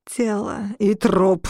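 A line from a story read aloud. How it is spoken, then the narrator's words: Growled. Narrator (Russian): прорычал он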